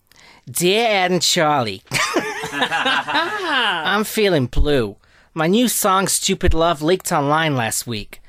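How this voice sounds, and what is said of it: Imitates another person's voice. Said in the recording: “do a Lady Gaga impression”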